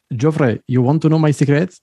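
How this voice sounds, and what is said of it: Imitated Belarusian man's accented English. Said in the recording (French): “bon accent qui tue ... c'est l'accent anglais”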